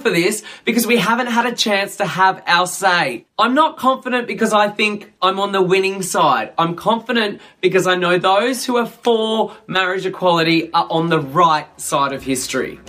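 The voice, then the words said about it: Australian accent, fast pace. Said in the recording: “another Australian with a slightly different accent speaking at a pretty quick pace”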